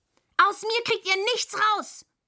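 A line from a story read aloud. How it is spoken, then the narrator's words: Angry scream. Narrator (German): schrie Müh wütend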